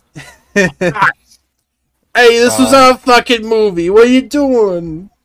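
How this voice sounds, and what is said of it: Put-on New York/New Jersey accent. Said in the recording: “your Jersey accent? ... It's like a New Yorker that moved to New Jersey.”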